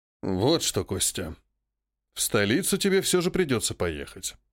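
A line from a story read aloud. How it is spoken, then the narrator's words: Quiet old man. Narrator (Russian): тихим голосом произнес дед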